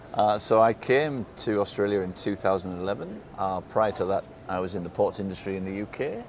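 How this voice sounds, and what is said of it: British, non-Australian accent. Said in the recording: “that's not an Australian accent”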